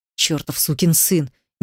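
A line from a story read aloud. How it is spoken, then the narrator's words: Unrestrained words through teeth. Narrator (Russian): не сдержавшись, процедил я сквозь зубы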